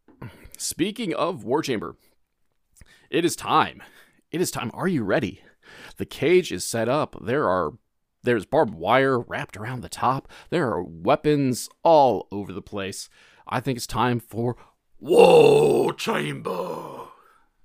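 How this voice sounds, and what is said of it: William Regal impression. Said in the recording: “my worst William Regal impression.”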